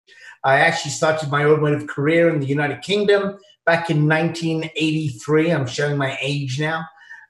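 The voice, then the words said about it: Strong British accent. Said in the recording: “As you can tell from my accent, it's very British.”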